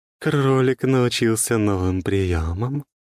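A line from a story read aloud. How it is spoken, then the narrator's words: Purred close to the ear. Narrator (Russian): промурлыкал голос у меня над ухом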